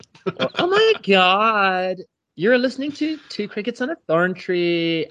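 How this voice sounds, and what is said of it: Put-on American Valley girl voice. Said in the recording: “I'm a Valley girl”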